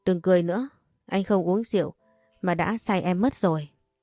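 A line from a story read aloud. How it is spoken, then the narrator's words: Smiling, gentle. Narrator (Vietnamese): Chú lúc này chỉ mỉm cười nói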